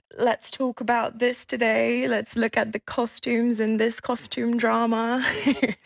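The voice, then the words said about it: Lovely English-speaking accent. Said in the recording (Dutch): “Oh, dat is een heerlijk accent.”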